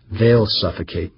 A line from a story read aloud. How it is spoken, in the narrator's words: Humphreys said flatly